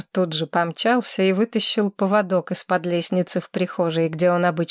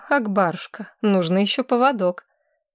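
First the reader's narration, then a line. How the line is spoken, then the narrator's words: Gentle, affectionate. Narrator (Russian): Федор Григорьевич сказал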